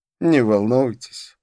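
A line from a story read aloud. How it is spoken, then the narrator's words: Laughing. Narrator (Russian): рассмеялся он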